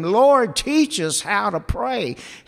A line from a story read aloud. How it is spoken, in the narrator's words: he says